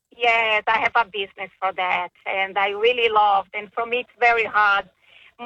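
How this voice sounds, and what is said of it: Brazilian accent in English. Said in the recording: “I think I've heard this accent before, but I'm going to take a guess because for me, it sounds Hungarian to me... like South American in some way... Are you Brazilian?... Of course I am.”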